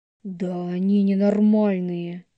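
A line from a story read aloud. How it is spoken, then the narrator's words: Growled like a werewolf. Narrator (Russian): рыкнул Рома совсем как оборотень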